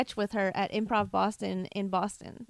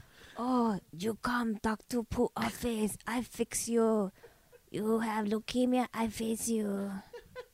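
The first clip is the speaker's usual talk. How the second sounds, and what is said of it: Put-on Asian accent, old doctor character. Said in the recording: “you do as a character, like Medea, but you're an old Asian doctor named Dr. Poo ... someone doing an offensive Asian accent”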